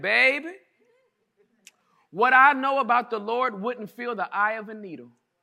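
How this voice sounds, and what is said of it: Southern Alabama twang. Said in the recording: “in that Birmingham, Alabama, southern kind of twang”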